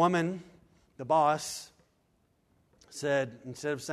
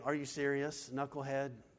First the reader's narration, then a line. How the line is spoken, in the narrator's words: said